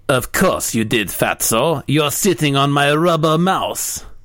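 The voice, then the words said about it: Put-on accent for a cartoon character. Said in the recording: “What was that accent?”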